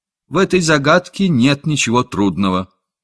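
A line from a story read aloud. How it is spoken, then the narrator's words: Calm, firm child. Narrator (Russian): Мальчик тотчас же спокойно и твердо сказал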